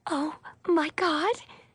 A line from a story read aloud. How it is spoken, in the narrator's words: Nishi breathed excitedly